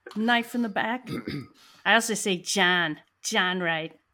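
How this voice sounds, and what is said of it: New York accent, some vowels Canadian-sounding. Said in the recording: “when you say knife ... your accent, New York accent sounds Canadian ... Less John Canadian”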